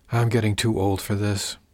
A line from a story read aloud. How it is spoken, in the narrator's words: she muttered